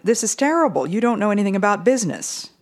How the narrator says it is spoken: cried the man

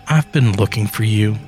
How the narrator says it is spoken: says in a soothing voice, almost sweet

